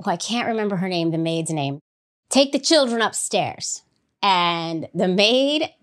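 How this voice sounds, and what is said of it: Usual voice. Nothing is said of it.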